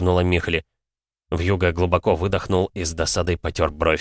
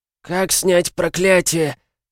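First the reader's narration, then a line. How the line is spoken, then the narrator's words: Hoarse rasp. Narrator (Russian): прохрипел Ружан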